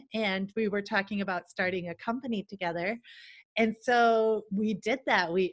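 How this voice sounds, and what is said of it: American accent. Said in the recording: “I'm originally from America ... That's the accent.”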